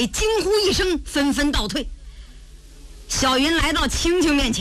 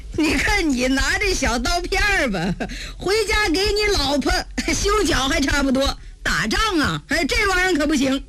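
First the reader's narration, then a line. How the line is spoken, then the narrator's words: Chuckling. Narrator (Chinese): 小云 嘿嘿一笑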